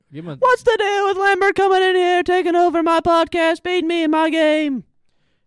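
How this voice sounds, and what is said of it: High-pitched imitation of another person's voice. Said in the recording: “your Seinfeld impression ... That was a little high pitched.”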